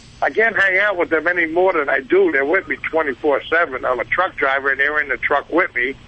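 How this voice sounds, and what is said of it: Brooklyn New York accent. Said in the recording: “You sound like you're calling from Jersey. ... that's a Brooklyn accent”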